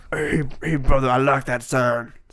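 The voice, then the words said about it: Hulk Hogan impression. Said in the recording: “I did my Hulk Hogan impression.”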